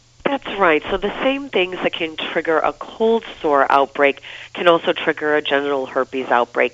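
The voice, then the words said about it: Congested voice from a cold. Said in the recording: “you can hear in my voice, I'm kind of run down, I have a cold”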